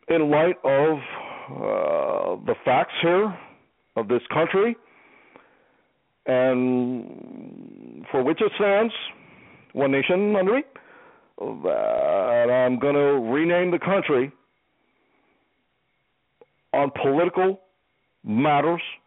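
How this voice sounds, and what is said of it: Obama impression. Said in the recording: “Impersonation time. ... Shall I do Obama again?”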